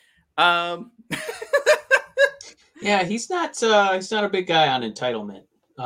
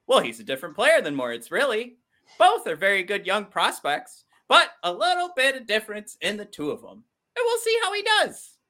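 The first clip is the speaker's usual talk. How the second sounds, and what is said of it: Imitates another person's voice. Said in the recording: “that is my impression of Steve Yzerman”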